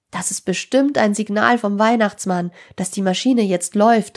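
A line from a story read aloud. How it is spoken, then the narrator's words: Called out. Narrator (German): rief Tim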